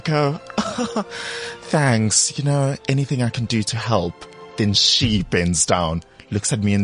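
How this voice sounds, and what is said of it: Usual voice. Nothing is said of it.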